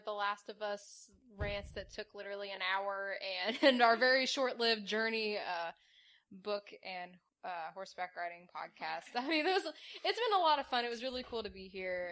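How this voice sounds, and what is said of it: Slightly slurred speech. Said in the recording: “I'm slurring my words a little bit”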